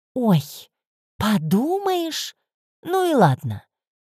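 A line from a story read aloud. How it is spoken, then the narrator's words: Drawling. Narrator (Russian): протянула она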